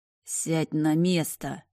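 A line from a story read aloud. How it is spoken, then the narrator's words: Venomous hiss. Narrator (Russian): ядовито прошипел он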